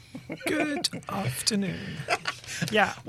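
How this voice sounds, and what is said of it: Put-on posh English voice. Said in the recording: “just put on a posh voice”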